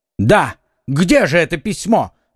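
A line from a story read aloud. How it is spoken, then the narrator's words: Shouting. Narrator (Russian): закричал Д'Артаньян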